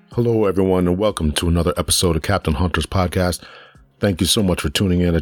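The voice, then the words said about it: Slightly hoarse, croaky voice. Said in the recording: “I have a little frog in my throat, still trying to get over a little cold”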